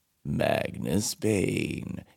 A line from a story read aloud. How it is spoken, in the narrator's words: it intoned in a voice like stones scraping against one another